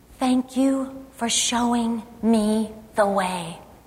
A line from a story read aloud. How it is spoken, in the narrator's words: Larry whispered in my ear